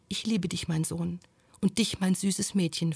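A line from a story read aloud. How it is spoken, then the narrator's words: Soft whisper. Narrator (German): flüsterte leise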